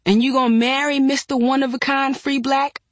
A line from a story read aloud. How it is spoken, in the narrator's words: I snapped at her